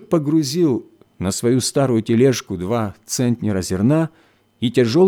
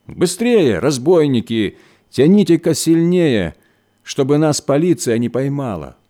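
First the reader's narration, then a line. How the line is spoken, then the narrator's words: Shouted. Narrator (Russian): кричал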